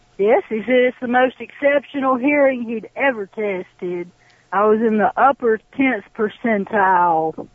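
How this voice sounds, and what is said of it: Alabama Southern American accent. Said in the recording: “I'm in Alabama. ... We have a wonderful accent.”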